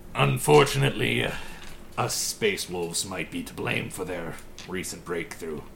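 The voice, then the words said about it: Deep-voiced elf character voice. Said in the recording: “It's an elf! You never hear an elf with a deep voice.”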